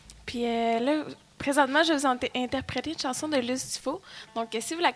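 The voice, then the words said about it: Québécois French accent. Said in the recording (French): “un accent québécois par ici”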